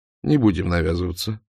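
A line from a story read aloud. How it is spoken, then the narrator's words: Plain. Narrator (Russian): сказал он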